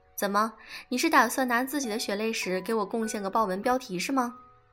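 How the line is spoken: Girl laughing. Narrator (Chinese): 萌妹倒是笑了

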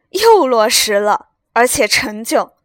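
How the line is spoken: Laughing. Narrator (Chinese): 贾政笑道

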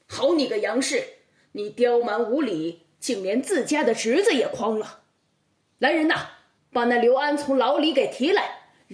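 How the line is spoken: Angry rebuke. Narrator (Chinese): 包公听后怒上心头，呵斥道

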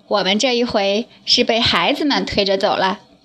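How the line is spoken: Breathless, smiling. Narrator (Chinese): 喘了一口气，笑着对张家妈妈说

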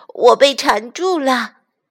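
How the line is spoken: Anxious cry. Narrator (Chinese): 弗洛格着急的叫着

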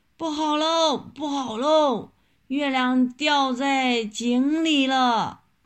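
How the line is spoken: Frightened loud shouting. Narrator (Chinese): 大猴子也吓得大声叫起来

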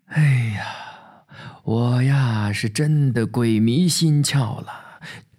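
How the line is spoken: Weak sigh. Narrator (Chinese): 老保长对爷爷虚叹

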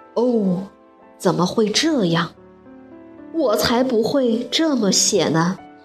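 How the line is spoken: Lamenting. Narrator (Chinese): 狮子哀叹说

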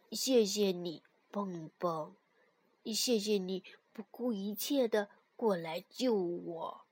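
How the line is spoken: Softly. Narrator (Chinese): 蹦蹦……小声的对跳跳说

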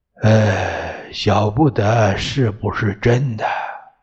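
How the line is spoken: Hesitant sighing old man. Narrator (Chinese): 爷爷答不了，叹了口气，沉吟道

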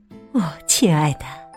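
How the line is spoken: Sighing. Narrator (Chinese): 麝鼠太太叹了口气

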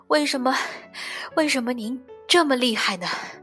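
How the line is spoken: Breathless young man asking. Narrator (Chinese): 年轻人，他喘着气问

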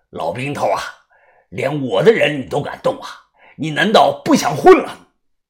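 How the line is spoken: Angry. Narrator (Chinese): 算翻天怒声的说道

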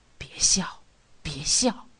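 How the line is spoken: Low urging. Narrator (Chinese): 低声的劝告

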